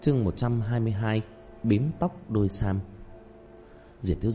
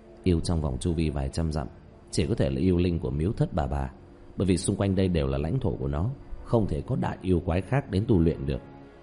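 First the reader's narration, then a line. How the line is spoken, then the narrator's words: Muttering. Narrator (Vietnamese): Hắn lẩm bẩm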